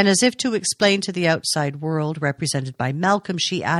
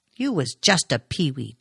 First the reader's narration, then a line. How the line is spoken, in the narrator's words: Duncan snapped